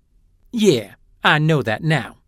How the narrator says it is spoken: Glem agreed testily

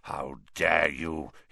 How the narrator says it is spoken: he growled, suddenly sounding like the bear-sized dog he had been

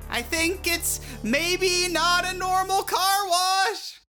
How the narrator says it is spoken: she screamed

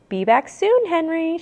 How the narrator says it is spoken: she said cheerfully

